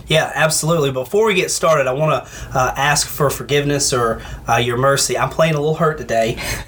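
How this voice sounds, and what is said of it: Nasal, congested voice. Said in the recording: “summer cold came on me overnight ... if you hear me, my voice is nasally ... trying to not cough into the mic”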